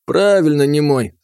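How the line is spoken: Laughing. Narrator (Russian): смеялся Сытин

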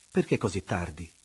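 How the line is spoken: Plain question. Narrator (Italian): le chiese

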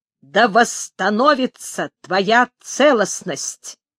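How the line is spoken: Clear firm voice. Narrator (Russian): Гет ясным твердым голосом сказал

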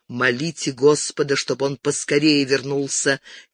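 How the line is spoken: Quiet mutter. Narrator (Russian): Тихо пробормотал

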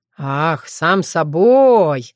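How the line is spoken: Drawled strangely, by an actor. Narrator (Russian): с каким-то странным выражением протянул актер

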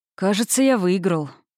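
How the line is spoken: Low, husky, smiling. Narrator (Russian): сказал дракон с легкой улыбкой, но его голос звучал низко, почти хрипло

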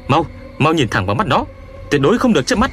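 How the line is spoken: Frantic shout. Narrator (Vietnamese): Tôi cuống cuồng quát cậu ta

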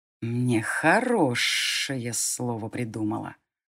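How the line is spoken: Resolute hiss. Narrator (Russian): решительно прошипел тот же голос

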